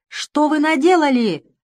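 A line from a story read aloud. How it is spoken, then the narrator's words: Shouted. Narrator (Russian): закричал он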